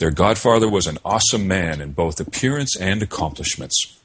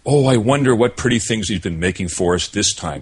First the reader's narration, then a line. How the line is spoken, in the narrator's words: exclaimed Marie